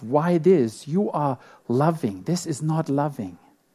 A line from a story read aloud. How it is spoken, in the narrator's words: The twin was angry and shouted